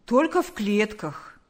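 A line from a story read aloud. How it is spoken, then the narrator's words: Cheerful. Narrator (Russian): бодро ответил мистер Квашневский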